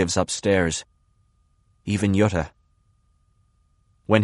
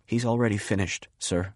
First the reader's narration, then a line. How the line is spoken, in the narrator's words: He says in a small voice